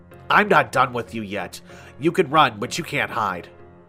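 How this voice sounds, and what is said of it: Mirthful, gleeful character voice. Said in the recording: “in a mirthful voice”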